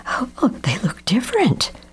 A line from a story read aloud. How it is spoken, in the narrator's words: Mama gasps